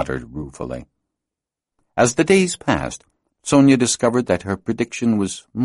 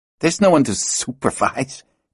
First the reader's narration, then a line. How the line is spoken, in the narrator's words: Christoph snapped